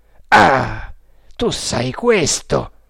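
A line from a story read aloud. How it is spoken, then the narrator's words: Exclamation. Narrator (Italian): esclamò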